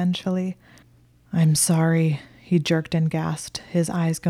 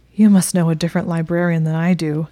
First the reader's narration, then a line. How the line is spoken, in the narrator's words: he said in a strangled voice